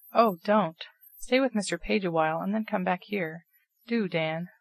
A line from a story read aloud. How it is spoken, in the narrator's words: pleaded Nat, much affected at the whole affair